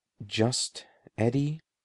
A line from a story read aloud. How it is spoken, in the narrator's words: he asked, keeping his voice low and soft